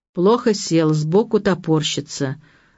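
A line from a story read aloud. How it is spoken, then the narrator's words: Stern, menacing. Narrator (Russian): грозно сказала врач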